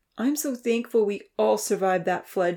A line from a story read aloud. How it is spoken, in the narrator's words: she cried out